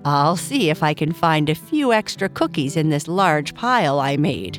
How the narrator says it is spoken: Papa Bear said, laughing

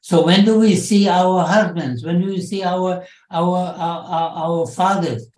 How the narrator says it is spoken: one of the women called out to the German soldiers, said

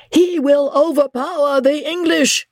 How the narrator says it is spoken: shrieked Isidore to his master

